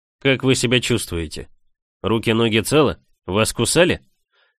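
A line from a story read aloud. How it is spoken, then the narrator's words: Man asking calmly. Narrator (Russian): спокойно спросил мужчина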